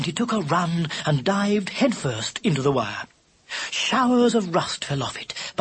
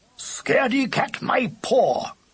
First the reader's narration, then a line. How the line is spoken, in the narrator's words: shouted Lubber